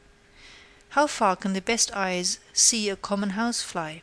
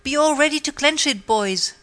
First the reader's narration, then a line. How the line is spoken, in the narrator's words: cried out Pathfinder